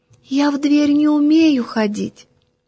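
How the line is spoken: Very thin little voice. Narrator (Russian): тоненьким-тоненьким голоском отвечает

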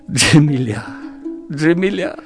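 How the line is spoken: Sobbing, choking on tears. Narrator (Russian): всхлипывал, захлебываясь слезами

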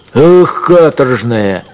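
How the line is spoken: Shouting at a dog. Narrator (Russian): крикнул он на овчарку

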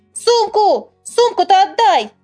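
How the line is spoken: Shouted. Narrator (Russian): закричал он

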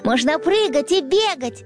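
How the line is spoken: Happy wolf cub suggesting. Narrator (Russian): радостно предложил волчонок, который еще находился под приятным впечатлением от игры

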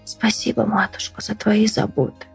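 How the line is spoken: Injured swallow whispering. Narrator (Russian): прошептала покалеченная ласточка

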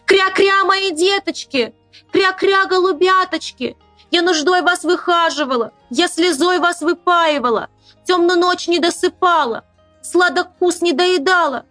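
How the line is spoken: Motherly wail. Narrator (Russian): материнским голосом завопила

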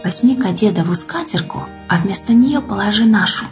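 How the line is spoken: Whisper. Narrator (Russian): Хозяйка шепнула

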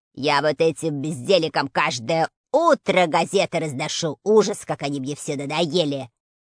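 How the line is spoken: Grumbling postman. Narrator (Russian): Проворчал почтальон Плюшкин

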